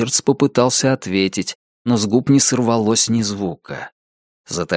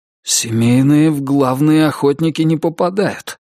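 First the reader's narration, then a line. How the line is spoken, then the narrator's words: Forced, reluctant words. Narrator (Russian): наконец выдавил он из себя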